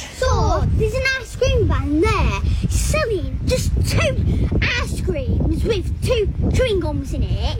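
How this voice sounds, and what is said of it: Thick British accent. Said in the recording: “This British girl's name is ... Her thick accent”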